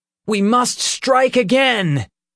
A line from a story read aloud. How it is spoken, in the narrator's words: Peter said, his voice brimming with excitement